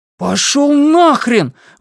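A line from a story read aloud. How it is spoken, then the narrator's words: Shouted. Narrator (Russian): выкрикнул Блейз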